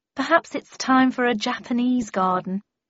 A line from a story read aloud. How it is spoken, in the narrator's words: sighed my mother